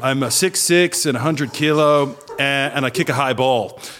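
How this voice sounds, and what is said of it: Put-on half American accent. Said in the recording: “I put on a half American accent”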